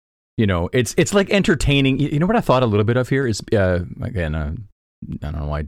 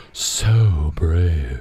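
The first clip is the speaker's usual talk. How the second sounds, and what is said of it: Breathy, adoring voice. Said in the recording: “in what she hoped was a breathy, adoring voice ... can you try to like replicate that breathy, adoring voice? ... Dude, that's perfect.”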